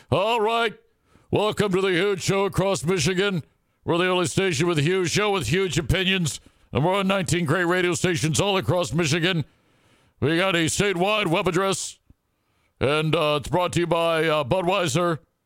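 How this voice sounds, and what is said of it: Impression of radio host Bill Simonson. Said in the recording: “You have become Bill Simonson. You got to do an impression, please.”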